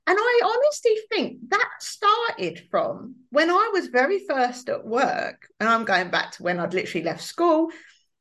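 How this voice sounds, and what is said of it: East London accent. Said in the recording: “my East London accent”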